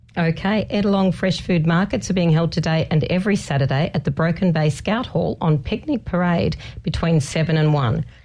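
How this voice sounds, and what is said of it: Hoarse, congested voice from a cold. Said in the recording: “As you can hear in my voice, we have got our daycare colds going through the house ... Your voice is a bit strange. ... It's terrible.”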